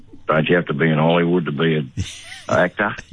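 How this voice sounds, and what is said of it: Put-on rural Australian accent. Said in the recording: “in my best Longreach accent”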